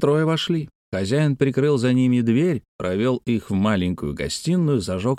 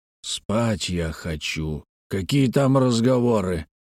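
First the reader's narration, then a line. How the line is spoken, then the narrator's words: Muttered reply. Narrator (Russian): пробурчал в ответ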